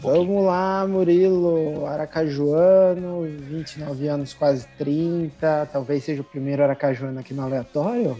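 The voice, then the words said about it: Strong Aracaju Brazilian Portuguese accent. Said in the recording (Portuguese): “eu adoro esse sotaque, é muito gostoso ... perdi um pouco do sotaque ... Ainda é forte”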